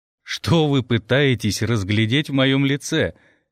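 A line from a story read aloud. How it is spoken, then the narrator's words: Playful boyish laugh. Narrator (Russian): рассмеялся хозяин комнаты, и его смех оказался удивительно задорным, как у мальчишки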